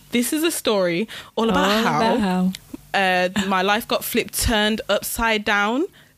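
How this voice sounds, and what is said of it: Imitated posh English accent. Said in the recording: “in his posh accent”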